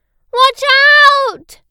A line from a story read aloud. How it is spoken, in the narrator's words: cried Ellie